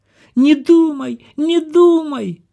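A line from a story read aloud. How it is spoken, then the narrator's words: Sudden shout. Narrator (Russian): закричала вдруг принцесса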